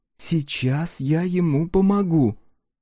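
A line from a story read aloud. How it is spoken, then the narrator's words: Whisper. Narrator (Russian): она шепнула Хан И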